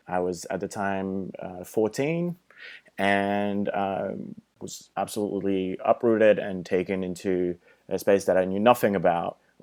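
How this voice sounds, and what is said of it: Slight French accent. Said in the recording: “I have a little bit of an accent, and it's because English is not my first language. I'm originally from France”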